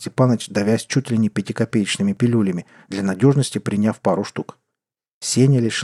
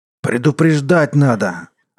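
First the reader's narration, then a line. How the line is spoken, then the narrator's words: Strangled growl. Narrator (Russian): сдавленно прорычал Степаныч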